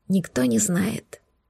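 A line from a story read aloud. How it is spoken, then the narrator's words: Trembling whisper. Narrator (Russian): прошептала, справляясь с дрожью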